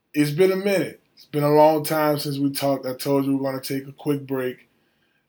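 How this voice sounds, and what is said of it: Slightly hoarse voice. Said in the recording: “My voice is a little off right now. I'm still a little hoarse from all of the celebrating.”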